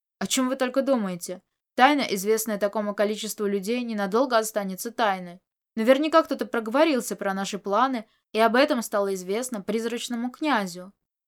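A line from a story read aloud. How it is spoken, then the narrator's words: Angry, displeased. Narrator (Russian): Нахмурившись, он сердито сказал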